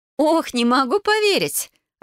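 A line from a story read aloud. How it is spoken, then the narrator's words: Hearty laughter. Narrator (Russian): расхохоталась Вайолет, хватаясь за живот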